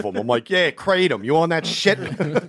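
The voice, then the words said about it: Put-on Philadelphia accent. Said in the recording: “Philly accent”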